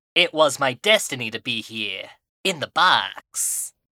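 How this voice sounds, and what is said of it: Cartoon character voice with Snake's cadence. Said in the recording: “trying to do a snake impression as Joey Wheeler... it's just going to be pure Joey. Maybe with the cadence of Snake.”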